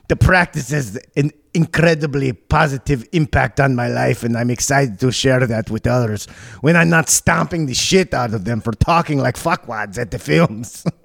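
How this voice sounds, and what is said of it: Put-on Glasgow Scottish accent. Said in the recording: “I'm never going to have any sort of good accent. My European accents are all the same. ... Yeah, it's Glasgow.”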